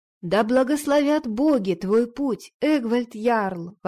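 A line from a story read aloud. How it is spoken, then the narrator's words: Ringing exclamation. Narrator (Russian): воскликнула она, ее звонкий голос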